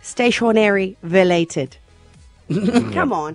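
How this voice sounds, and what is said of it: Put-on German accent. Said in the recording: “you wanted me to do it in a German accent. ... we want a German accent version.”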